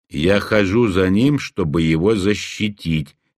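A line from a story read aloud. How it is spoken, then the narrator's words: Flat, emotionless voice. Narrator (Russian): бесстрастным голосом произнесла Найда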